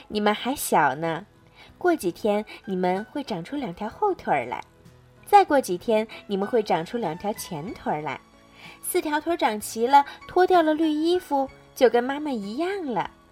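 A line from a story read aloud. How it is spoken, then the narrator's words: Cheerful, laughing mother. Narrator (Chinese): 青蛙妈妈笑着说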